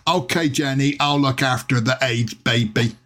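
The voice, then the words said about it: Forrest Gump character impression. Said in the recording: “my impression of, what's his name? Forrest Gump.”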